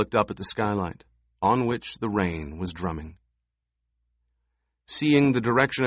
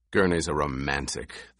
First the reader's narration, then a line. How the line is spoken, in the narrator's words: the Duke growled